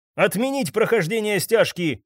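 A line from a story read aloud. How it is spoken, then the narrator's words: Barked. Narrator (Russian): рявкнул Кейт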